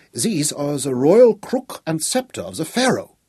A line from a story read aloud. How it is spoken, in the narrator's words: cried Von Schiller, in a voice that was gusty and faint with emotion